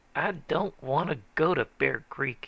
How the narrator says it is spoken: he said fiercely

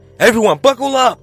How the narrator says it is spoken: I shouted

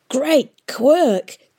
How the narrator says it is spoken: the historian cried

